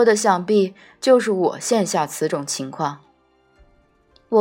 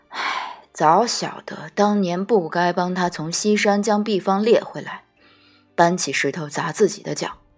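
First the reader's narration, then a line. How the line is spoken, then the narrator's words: Solemn, long sigh. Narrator (Chinese): 折颜脸色难得的端肃，长叹一声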